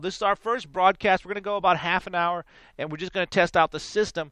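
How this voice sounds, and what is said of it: Congested, deeper-sounding voice. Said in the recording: “My sinuses are just really, as you can tell in my voice, I sound more manly now. But it's just my voice is getting hit with it, my sinuses.”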